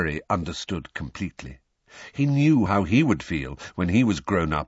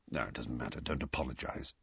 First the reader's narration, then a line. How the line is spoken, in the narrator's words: Sirius mumbled